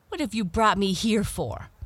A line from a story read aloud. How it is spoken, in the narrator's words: cried the proud princess angrily